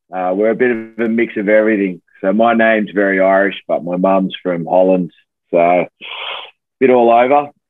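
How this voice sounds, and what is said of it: Australian accent. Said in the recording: “grew up in Australia, hence that accent and the g'day mate”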